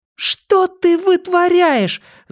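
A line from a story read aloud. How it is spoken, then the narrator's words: Yelling after someone. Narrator (Russian): завопила вслед ему Бакстер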